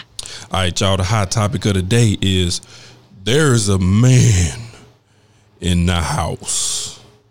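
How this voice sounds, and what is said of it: Deep radio announcer voice. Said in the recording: “Why did your voice get so deep? ... my little 105.7 radio voice”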